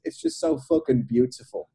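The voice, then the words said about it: Put-on English London accent. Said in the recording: “in my London, ... in my English accent.”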